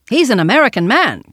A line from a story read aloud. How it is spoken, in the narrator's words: cried Randolph in his hard little voice